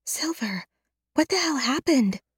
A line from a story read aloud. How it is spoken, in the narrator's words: She whispers